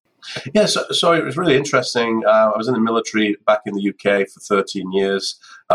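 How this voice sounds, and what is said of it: British-accented speech. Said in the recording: “a British lilt to your accent.”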